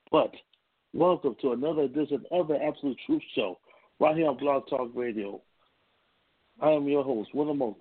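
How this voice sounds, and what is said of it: Sick, under-the-weather voice. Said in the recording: “a little bit underneath the weather. Deshaun gave me a sickness last night ... forgive my voice”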